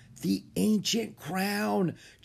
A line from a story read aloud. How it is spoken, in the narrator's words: Jack whispered